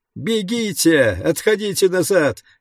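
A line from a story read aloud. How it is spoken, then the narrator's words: Shrill panicked screaming. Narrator (Russian): визжал кто-то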